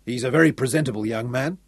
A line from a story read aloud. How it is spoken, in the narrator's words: told her sternly